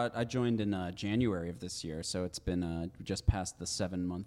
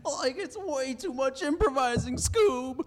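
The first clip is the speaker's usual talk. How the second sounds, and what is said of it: Shaggy cartoon character voice impression. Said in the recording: “that's a really good impression... did Scooby just walk in here?”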